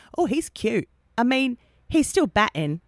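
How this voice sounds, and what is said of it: Poor put-on English accent. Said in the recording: “she's English ... that was a terrible accent.”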